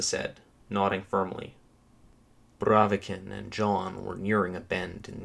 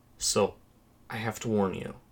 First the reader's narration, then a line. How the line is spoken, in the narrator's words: Chris said, lowering his voice